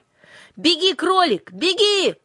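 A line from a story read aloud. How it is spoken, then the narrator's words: Shouting after someone. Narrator (Russian): крикнула Юлька вдогонку зверьку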